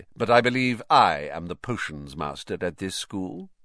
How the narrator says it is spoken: said Snape, icily

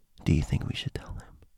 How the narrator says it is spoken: in a low whisper-esque voice, I heard

